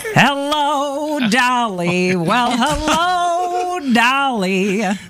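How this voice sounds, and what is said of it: Sung imitation of a Broadway belter. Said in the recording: “my impersonation ... So not Louis Armstrong, more Ethel Merman.”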